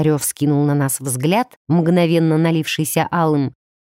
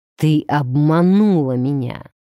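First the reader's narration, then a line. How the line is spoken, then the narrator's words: Growled. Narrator (Russian): прорычал он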